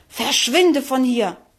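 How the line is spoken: Angry hiss. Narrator (German): fauchte wütend

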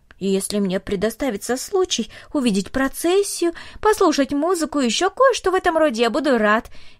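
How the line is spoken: Cheerful. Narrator (Russian): весело сказал он

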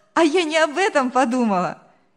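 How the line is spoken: Girl's merry laughter. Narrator (Russian): весело рассмеялась девушка

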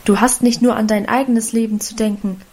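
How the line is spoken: Plain. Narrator (German): antwortete der Vater

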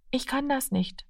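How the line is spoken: Quiet. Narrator (German): sagte er leise

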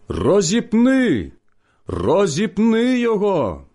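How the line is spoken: Crowd shouting. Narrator (Ukrainian): вони закричали

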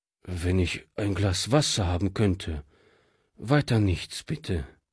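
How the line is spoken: Tired refusal. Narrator (German): wehrte dieser müde ab

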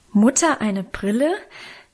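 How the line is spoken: Children calling, laughing, horrified. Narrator (German): riefen wir Kinder teils lachend, teils entsetzt

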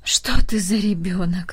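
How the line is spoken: Sighing old woman. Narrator (Russian): вздохнула бабушка

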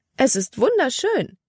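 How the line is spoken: Exclamation. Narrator (German): rief sie aus

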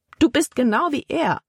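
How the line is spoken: Exclaiming. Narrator (German): rief Libby aus

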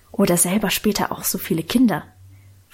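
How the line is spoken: Whispering. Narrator (German): flüsterte Lenchen

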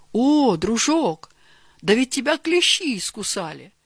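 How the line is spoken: Exclaiming. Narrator (Russian): воскликнул Георгий Иванович

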